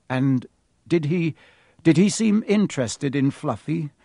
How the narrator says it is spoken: Harry asked, trying to keep his voice calm

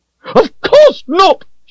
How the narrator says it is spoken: she shouted

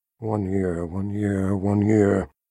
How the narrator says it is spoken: Sister Ulysia, as if in a trance, mumbled

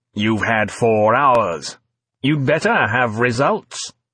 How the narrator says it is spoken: he began coldly

